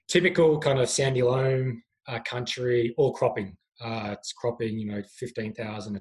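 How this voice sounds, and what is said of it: Australian accent. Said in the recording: “as you can tell from my accent, I'm not from these parts ... originally from Australia”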